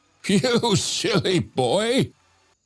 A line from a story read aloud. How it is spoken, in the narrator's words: Joseph said with a cackle